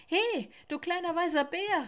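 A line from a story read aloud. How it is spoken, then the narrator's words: Woodpecker calling from above. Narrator (German): rief ein Specht von oben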